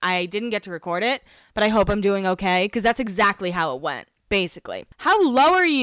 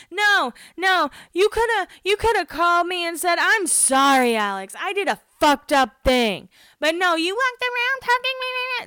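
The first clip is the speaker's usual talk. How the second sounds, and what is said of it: Imitates another person's voice. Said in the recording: “That is my impression of this fight”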